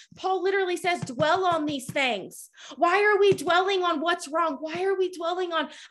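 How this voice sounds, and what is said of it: Yelling preacher. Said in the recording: “I'm sorry if I'm yelling. I got to calm down.”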